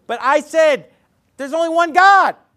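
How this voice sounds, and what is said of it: Louder, emphatic retelling voice. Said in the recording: “I'm gonna get a little louder as I tell the story. So this isn't really how it was”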